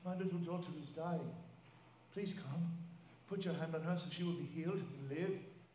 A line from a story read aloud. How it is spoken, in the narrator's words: pleaded earnestly with him